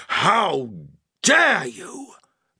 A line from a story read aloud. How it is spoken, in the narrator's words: bellowed Badju, affronted